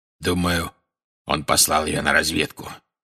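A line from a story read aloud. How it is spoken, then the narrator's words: Growled. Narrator (Russian): прорычал Грюм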